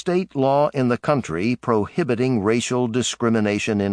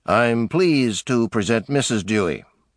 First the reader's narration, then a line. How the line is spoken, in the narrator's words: Dewey would say stiffly